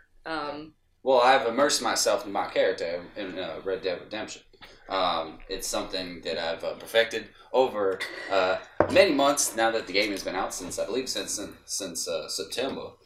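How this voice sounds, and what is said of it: Kentucky accent. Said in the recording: “I'm from the city of Louisville, Kentucky. ... I noticed the accent.”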